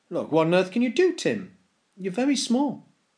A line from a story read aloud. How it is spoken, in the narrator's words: Tim's father exclaimed